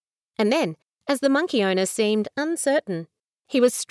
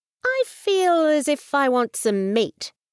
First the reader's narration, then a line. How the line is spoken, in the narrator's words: he said slowly